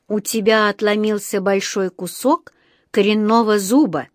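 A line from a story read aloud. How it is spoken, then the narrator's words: Slow, clipped, deliberate. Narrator (Russian): медленно и раздельно отчеканил он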